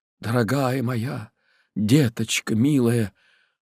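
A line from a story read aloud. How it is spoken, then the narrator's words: Barely audible trembling whisper. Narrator (Russian): шептал еле слышно Сергей Григорьевич, трясясь точно в ознобе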